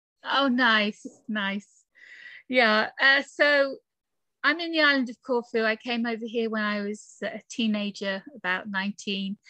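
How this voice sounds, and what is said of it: British accent. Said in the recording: “I'm from the UK, as you can tell from my accent”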